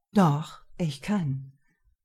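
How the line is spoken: Calm firm reply. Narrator (German): erwiderte Marvin ruhig und mit fester Stimme

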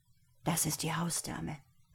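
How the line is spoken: Whisper. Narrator (German): flüsterte Boris

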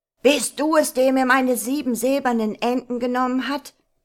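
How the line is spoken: Troll shouting. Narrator (German): rief der Troll

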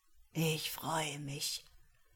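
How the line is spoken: Croaking. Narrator (German): krächzte Kiarow

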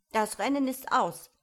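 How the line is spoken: Dodo calling suddenly. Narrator (German): rief der Dodo plötzlich

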